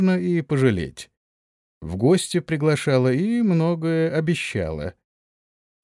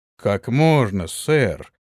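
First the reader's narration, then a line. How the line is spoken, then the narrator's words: Surprised exclamation. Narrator (Russian): удивленно воскликнул Антон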